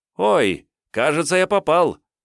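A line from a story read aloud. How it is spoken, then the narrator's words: Joyful yell. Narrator (Russian): радостно завопил старший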